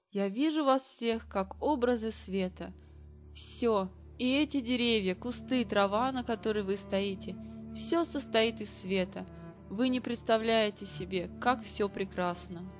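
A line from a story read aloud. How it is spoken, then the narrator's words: Quiet. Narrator (Russian): тихо произнес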